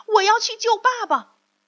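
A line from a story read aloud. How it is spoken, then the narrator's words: Shouting. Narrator (Chinese): 匹诺曹叫喊一声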